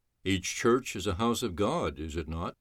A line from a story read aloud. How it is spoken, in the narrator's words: Simon asked softly